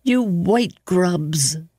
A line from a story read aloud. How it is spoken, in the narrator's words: choked out the word, almost spat it out